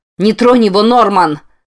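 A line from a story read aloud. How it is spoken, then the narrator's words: Yelled. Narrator (Russian): заорала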